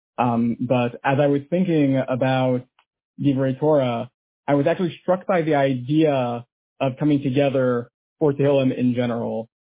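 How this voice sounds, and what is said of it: Hoarse voice. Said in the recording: “it's a little bit hard to understand me. I was unfortunately under the weather for the past several days, so my throat is a little bit hoarse.”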